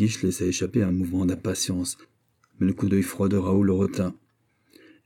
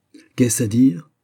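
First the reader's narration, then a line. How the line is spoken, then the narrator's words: Furious exclamation. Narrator (French): s'écria Buckingham, d'une façon si emportée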